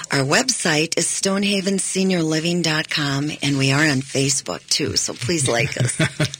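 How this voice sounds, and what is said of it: Calm, soothing radio voice. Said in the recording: “doesn't she have a nice radio voice? ... Isn't that just calming and soothing? ... that nice sound”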